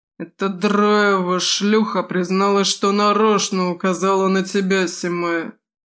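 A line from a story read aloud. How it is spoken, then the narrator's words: Reluctant mutter. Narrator (Russian): неохотно буркнул он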